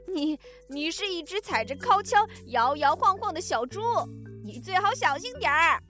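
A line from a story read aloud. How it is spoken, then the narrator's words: Laughing zebra. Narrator (Chinese): 斑马大笑着说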